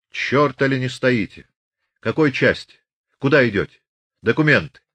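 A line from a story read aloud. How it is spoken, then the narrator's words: Shouted by an officer. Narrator (Russian): крикнул урядник Колычев, начальник поста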